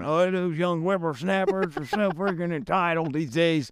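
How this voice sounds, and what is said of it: Imitated old person's voice. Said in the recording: “I was trying to do my best old voice.”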